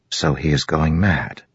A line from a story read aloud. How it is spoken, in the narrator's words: Adolin whispered